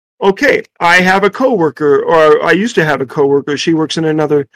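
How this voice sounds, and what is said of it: Usual voice. Nothing is said of it.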